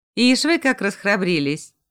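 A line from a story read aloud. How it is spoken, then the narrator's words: Laughing. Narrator (Russian): засмеялась Марина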